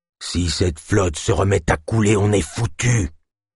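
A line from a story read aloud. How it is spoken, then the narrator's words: Growled. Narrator (French): grogna Rodag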